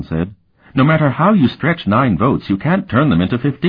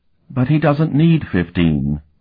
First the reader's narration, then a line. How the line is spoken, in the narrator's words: Preceptor Darylon said wearily